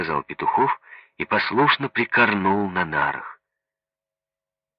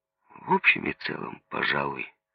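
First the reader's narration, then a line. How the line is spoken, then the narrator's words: Mumbling. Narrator (Russian): промямлил Петухов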